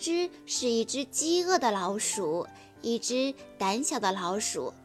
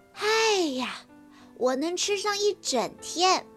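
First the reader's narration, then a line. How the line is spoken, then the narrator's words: Exclaiming. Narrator (Chinese): 咯吱感叹地说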